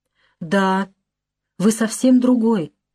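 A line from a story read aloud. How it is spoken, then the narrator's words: Broken voice. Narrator (Russian): говорит она каким-то разбитым голосом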